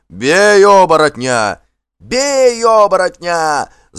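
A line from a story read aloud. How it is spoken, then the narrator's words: Fearful group yelling. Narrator (Russian): завопили работники криком, стараясь заглушить собственный страх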